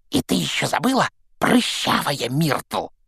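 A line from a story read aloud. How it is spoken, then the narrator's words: Hiss into ear. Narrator (Russian): прошипел ей в ухо Пивз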